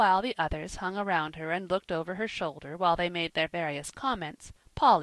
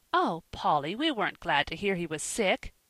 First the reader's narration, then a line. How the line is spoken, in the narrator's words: cried Ben in horror